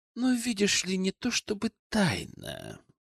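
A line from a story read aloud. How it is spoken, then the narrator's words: Drawling. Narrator (Russian): протянул Хамелеон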